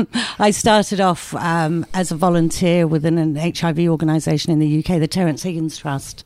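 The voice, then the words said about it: English accent. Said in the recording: “I started off in England. Maybe you can guess by my accent.”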